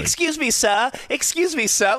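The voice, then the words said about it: Fake British accent. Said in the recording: “she had apparently a fake British accent going on”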